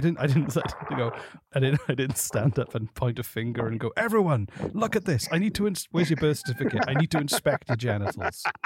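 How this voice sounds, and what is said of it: British accent. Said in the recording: “The only reason that's funny is because of your accent, man. ... Only works in a British accent.”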